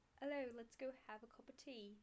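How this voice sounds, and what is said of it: Attempted British accent. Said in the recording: “Can you do a British see. accent? ... your Staten Island might be better than that one”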